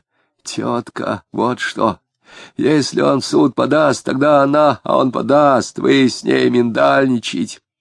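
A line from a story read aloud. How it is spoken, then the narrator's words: Sullen hoarse confession. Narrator (Russian): Угрюмо сознался Безбедов, хрипя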